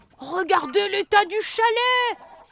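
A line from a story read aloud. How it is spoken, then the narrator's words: Sudden exclamation, goblin. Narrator (French): s'écrie soudain un lutin au nez en trompette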